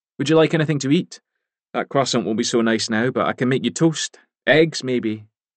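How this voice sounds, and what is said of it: Scottish accent. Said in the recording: “Speaking with the Scottish accent that had always set him apart.”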